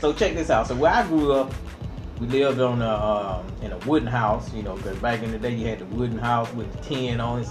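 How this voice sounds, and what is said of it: Slight Georgia Southern accent. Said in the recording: “I'm from Georgia, so you might hear a little accent.”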